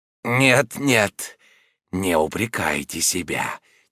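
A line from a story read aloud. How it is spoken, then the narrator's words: Quiet. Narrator (Russian): тихо сказал Роден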